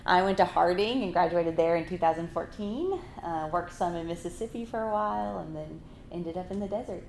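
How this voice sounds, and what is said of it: Arkansas Southern accent. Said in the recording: “If you hear in my voice, I come from Arkansas. I am a native Arkansan.”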